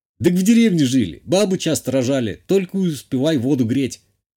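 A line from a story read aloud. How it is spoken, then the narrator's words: Smirking grunt. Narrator (Russian): Хмыкнул тот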